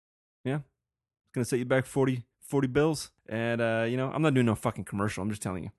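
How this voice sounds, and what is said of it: Usual voice. Nothing is said of it.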